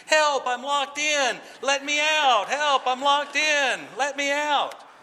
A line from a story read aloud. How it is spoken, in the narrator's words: it would begin to start shouting, literally shouting